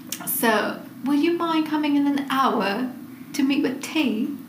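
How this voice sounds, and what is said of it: Exaggerated attempted British accent. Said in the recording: “I can't do a British accent, but I'm going to try. ... It's so exaggerated.”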